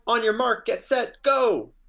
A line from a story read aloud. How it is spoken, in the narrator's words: Mo yelled back